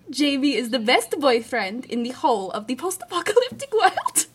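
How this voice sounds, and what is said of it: Vaguely Eastern European put-on accent. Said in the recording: “You also do a pretty mean, vaguely Eastern European accent.”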